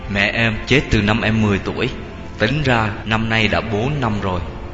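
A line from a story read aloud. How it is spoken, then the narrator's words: Low downcast voice. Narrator (Vietnamese): xịu mặt xuống, nó trả lời bằng giọng trầm trầm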